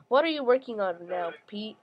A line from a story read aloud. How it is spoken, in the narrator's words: I asked